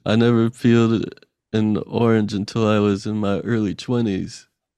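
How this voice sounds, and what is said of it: Imitates another person's voice. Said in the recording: “doing a Kevin impression.”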